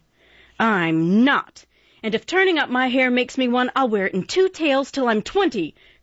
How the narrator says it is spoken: cried Joe

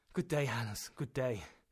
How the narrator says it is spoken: I murmured

